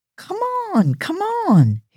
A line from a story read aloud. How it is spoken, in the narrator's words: He cried